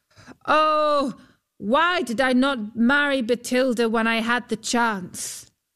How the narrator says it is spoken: Huldbrand called out

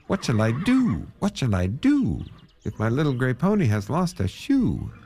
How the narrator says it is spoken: he cried out

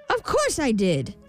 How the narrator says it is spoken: snapped the imp

